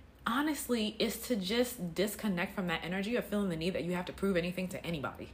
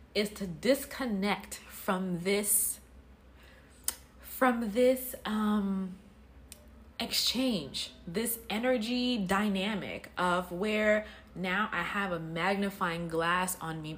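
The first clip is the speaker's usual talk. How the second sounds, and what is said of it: Deliberately slower speech. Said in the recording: “I'm gonna say that slower because I know I said that kind of fast”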